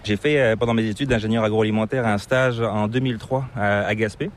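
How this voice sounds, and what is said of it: Slight hard-to-place non-Québécois accent. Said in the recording (French): “tu as une petite pointe d'accent qui est assez difficile de deviner ... c'est pas l'accent québécois”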